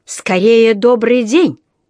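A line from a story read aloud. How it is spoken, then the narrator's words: Harsh bark. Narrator (Russian): рявкнул сэр Арчибальд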